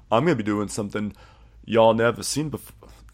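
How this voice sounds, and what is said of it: Imitated accent of John Moody. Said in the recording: “I'm trying to do the accent without just sounding ridiculous.”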